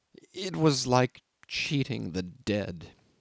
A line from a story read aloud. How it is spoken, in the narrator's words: stammered